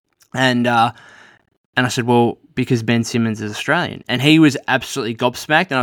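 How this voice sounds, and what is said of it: Australian accent. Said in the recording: “He obviously heard that I was, you know, Australian. I started talking, you know, my accent, obviously.”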